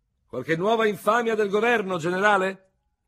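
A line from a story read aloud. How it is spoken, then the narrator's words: Big-chested veteran shouting from afar. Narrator (Italian): Un veterano dall'ampio torace gridò dall'altra estremità del caffè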